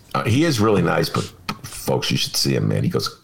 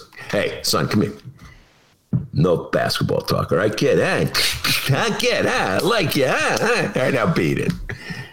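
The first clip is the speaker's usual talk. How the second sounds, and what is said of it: Gangster voice impression. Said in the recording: “My imitation of Richard Pryor imitating a gangster.”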